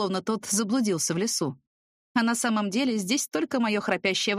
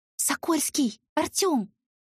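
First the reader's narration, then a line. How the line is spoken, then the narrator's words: Panicked whisper. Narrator (Russian): позвала шепотом, в панике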